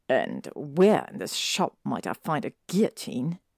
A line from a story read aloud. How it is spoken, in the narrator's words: He sneers at the girl